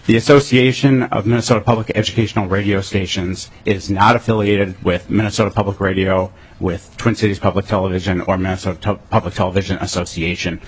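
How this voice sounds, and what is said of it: Congested, sick-sounding voice. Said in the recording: “This is not my radio voice. This is the I'm fighting a cold voice”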